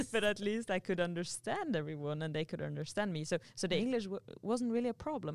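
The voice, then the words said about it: Non-native English accent. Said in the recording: “I know that I still have an accent”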